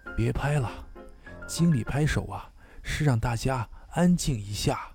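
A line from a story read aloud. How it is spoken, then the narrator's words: Low voice. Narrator (Chinese): 旁边一个同事低声告诉我说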